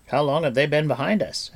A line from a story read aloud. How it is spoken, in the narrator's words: asked Fluder